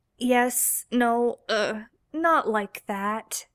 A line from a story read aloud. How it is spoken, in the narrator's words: Sam stuttered